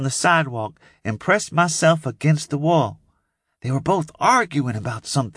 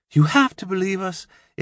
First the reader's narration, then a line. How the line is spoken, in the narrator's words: Imogene cried